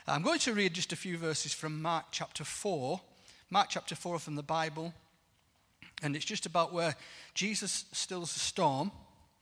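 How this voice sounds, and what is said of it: Non-local accent. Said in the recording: “my accent is a little bit different to yours, and the longer I preach, the faster I get.”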